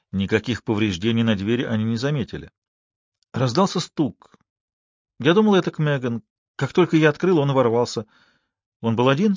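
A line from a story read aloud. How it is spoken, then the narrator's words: Plain. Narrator (Russian): спросила Элли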